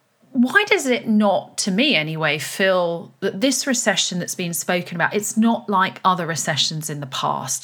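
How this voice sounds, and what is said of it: British English accent. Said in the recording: “I'm in the UK, just to add, as you can hear from my accent”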